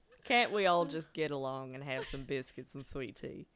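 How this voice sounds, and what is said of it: Imitates another person's voice. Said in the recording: “Nothing against Matthew McConaughey, but like that accent”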